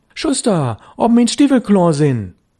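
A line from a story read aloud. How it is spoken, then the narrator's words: Calling louder. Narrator (German): Störtebecker rief schon lauter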